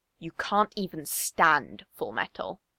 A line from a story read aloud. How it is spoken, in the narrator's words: he snarls